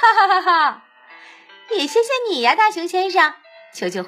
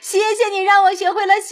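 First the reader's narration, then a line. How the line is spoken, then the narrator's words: Happy shout. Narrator (Chinese): 大熊高兴的大叫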